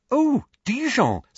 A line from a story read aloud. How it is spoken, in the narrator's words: said Hermione excitedly